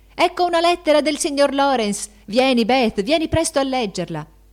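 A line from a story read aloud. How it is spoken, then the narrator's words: Four voices shouting joyfully. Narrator (Italian): quattro voci gridarono con accento di gioia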